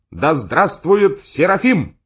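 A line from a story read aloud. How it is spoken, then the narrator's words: Shout from crowd. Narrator (Russian): в середине зала кто-то крикнул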